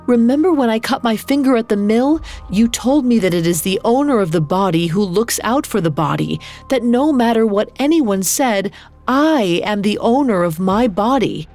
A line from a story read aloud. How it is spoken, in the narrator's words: She pleaded